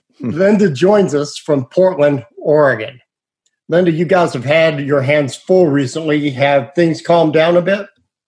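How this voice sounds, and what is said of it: West Virginia accent. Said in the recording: “my West Virginia accent”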